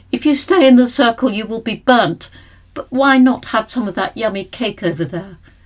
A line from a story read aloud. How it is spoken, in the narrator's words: a man's voice cried out